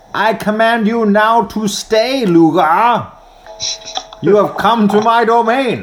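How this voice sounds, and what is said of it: Voldemort-style villain voice. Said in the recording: “doing a Voldemort voice”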